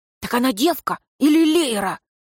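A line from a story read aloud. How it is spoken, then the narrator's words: Loud whisper. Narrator (Russian): один из стражей спросил громким шепотом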